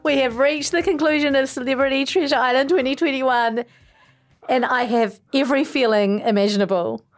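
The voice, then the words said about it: Emotional, breaking voice. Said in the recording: “My voice is breaking. I'm emotional.”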